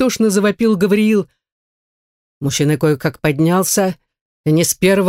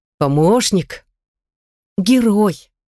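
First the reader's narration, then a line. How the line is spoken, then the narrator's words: Affectionate. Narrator (Russian): ласково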